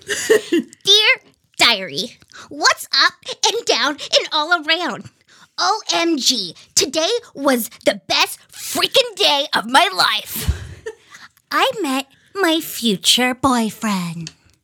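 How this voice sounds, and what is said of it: Child-like character voice. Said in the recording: “I'm gonna do voices. I'm going to do my kid voice”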